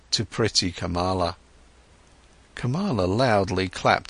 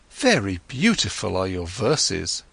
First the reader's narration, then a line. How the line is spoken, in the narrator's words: exclaimed Kamala